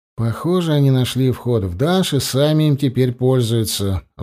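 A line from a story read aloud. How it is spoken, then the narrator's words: Sigh. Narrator (Russian): вздохнул я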